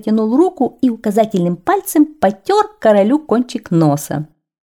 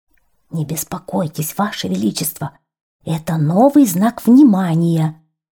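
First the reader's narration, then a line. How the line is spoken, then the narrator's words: Strained whisper. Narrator (Russian): шепнул на ухо королю первый министр и натянуто улыбнулся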